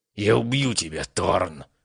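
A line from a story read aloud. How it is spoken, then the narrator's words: Hissed. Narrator (Russian): прошипел он в пустоту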